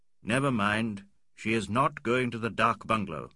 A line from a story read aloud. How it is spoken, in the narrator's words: said Fielding